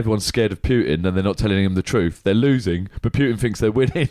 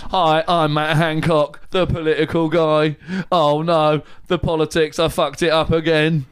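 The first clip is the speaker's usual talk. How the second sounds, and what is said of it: Robotic voice impression. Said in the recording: “can do a good robot impression ... Robot, he'll do it ... Not bad.”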